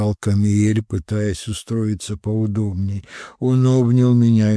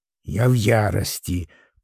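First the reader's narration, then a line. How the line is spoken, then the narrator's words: Grumbling. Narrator (Russian): послышалось бурчание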